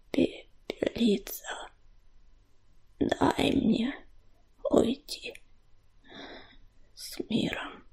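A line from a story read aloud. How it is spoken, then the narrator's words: Grating moan. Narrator (Russian): Стонал он, и голос его был похож на скрежет когтей по коре дерева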